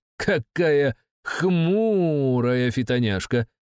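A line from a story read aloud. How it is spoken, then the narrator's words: Playful drawl. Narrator (Russian): игриво протянул Петух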